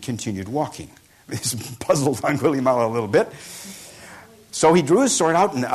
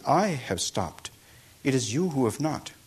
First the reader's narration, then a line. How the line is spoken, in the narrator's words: answered quietly